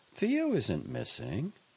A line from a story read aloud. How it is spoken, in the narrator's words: Betty said calmly